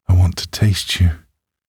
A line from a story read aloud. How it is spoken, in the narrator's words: moans with urgent passion